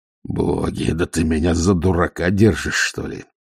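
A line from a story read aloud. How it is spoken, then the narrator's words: Growled. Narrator (Russian): прорычал Ваймс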